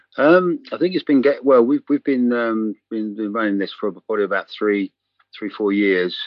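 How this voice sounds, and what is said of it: English accent. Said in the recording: “I'm sort of English, as you can tell by my accent”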